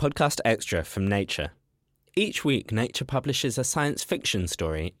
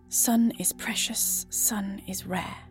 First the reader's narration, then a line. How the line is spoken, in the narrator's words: he whispers behind his mouth cover